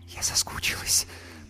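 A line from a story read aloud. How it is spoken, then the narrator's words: Whisper. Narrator (Russian): прошептала Юлька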